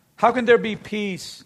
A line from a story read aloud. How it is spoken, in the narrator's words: Jehu replied